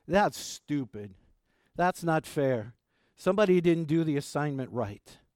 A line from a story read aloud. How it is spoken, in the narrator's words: The children exclaimed